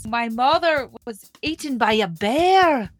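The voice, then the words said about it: Imitated Scottish cartoon-princess accent. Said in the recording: “Merida's accent ... her Scottish accent ... That's good. I feel like I can say the word bear like she does.”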